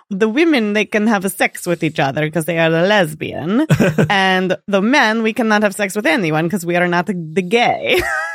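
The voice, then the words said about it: Imitates another person's accented voice. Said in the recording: “That was a really good accent I just did. ... No, that was really good.”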